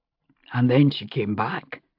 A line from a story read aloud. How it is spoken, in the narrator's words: Roger said quietly